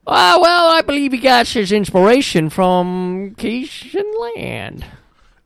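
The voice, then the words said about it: Put-on Cajun accent. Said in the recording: “we just learned we got a new accent. This is the Cajun ... Oh, boy. Your accent.”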